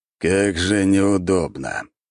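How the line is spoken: Grumbling. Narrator (Russian): пробурчал император

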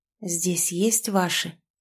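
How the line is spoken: Barely audible. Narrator (Russian): Едва слышно произнесла

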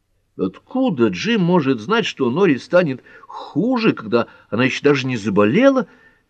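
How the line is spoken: Exclamation. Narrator (Russian): воскликнул Пэт

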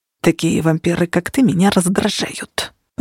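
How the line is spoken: Muttering. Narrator (Russian): пробормотал Влад

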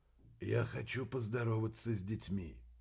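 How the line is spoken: Quiet. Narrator (Russian): тихо сказал

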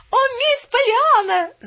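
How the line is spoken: Wailing cry. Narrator (Russian): завопила она

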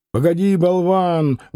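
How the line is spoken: Loud shout. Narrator (Russian): громко крикнул конвойный

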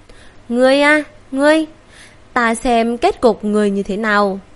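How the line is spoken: Sighing. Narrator (Vietnamese): Ngô Cẩm Lĩnh thở dài

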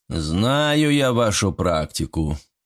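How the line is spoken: Deep bass. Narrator (Russian): пробасил Совин

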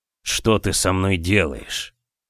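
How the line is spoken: Hoarse rasp. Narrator (Russian): прохрипел Женя

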